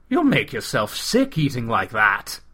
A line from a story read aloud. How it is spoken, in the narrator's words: exclaimed